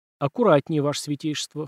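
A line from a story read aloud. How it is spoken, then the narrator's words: Smirking snort. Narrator (Russian): хмыкнул я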